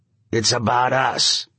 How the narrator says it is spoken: said Quigley in his dead voice

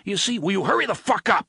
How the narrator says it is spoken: Balazar yelled

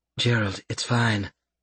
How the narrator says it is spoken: Mary Sue murmured

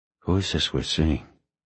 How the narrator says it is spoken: Bosch whispered

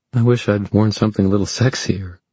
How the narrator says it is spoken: she said with a shaky laugh

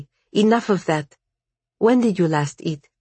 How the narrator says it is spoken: said Sasha sharply

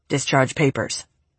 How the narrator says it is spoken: he mumbled

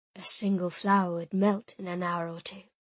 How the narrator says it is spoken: he said, his voice huskier than usual

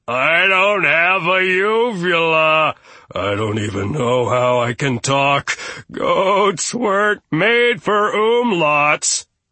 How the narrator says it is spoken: Poor Gustav, when it was his turn, dropped a steamy bevy of fright pellets and wailed

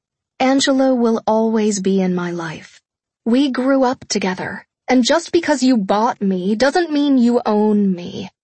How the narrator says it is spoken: I said evenly

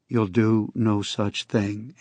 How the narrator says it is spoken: Andy said

